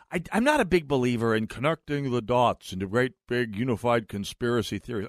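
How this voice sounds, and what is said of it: Impression of Nick Coleman's voice. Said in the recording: “doing my Nick Coleman voice”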